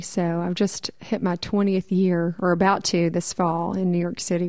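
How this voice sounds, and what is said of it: Noticeable regional accent. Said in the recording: “you haven't completely lost your accent either ... Haven't even gotten close.”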